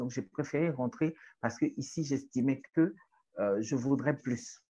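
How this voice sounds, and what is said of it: Strong Togolese French accent. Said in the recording (French): “une Togolaise paumée avec un accent bien togolais ... j'ai un accent”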